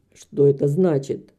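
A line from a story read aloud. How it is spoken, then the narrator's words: Harsh hoarse voice. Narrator (Russian): прозвучал вопрос обычным резким хриплым голосом мистера Басби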